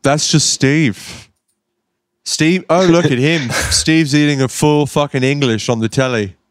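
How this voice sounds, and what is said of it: Put-on British accent, like Grindah. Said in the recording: “Something British ... You doing that voice reminds me of on People Just Do Nothing ... you sound like Grindr yelling at Steve's. It's pretty good.”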